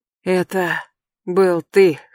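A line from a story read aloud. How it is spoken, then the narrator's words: Hoarse mutter. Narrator (Russian): хрипло пробормотал Трей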